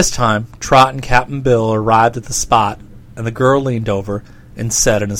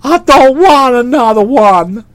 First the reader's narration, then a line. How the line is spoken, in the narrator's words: wailed the young man